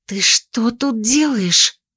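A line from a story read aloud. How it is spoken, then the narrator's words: Hissed. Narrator (Russian): прошипела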